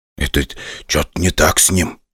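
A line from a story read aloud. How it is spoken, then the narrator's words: Whispered. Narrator (Russian): шепнул мне Чумаков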